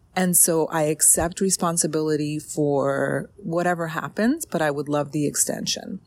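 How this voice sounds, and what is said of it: Strained, fading voice. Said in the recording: “I am losing my voice ... I'm drained”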